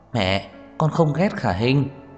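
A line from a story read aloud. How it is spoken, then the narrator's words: Sighing, wry bitter laugh. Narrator (Vietnamese): Trang Hạo Nhiên thở dài một cái, không nhịn được cười khổ ... nói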